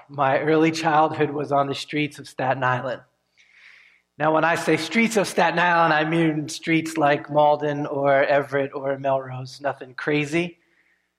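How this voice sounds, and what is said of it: Northeast US accent, New York-Boston. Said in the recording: “this weird Northeast accent, sometimes it's New Yorkish and sometimes it's Boston”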